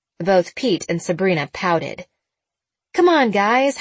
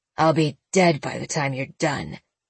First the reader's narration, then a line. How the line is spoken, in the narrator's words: Pete muttered